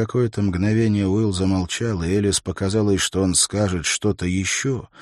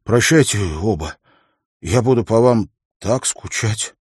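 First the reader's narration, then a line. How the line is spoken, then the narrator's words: Trembling voice. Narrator (Russian): дрожащим голосом произнес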